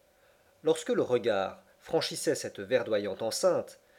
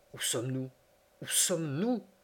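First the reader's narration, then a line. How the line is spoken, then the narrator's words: Repeated in low voice. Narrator (French): répétais-je à mi-voix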